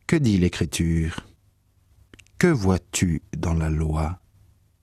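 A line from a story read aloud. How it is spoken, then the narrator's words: Plain. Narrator (French): L'homme répondit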